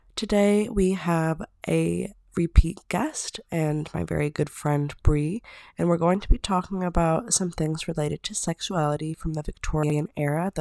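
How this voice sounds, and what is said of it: Sick-sounding voice. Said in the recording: “today I'm a little bit sick, so please excuse my voice”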